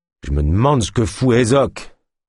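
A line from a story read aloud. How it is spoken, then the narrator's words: Guard growling. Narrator (French): gronda le gardien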